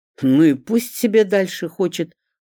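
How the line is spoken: Snort. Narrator (Russian): хмыкнул Эдуард Борисович

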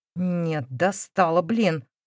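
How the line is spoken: Stubborn, through gritted teeth. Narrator (Russian): Упрямо выдохнул сквозь зубы Поликарп

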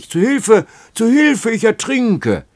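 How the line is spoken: Sudden scream. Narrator (German): schrie er plötzlich

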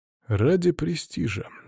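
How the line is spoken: Calm answer. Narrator (Russian): спокойно ответил глава клана Барнами

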